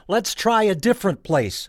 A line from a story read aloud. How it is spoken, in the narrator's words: yelled back